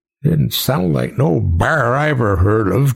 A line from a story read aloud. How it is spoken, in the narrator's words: Jedediah grumbled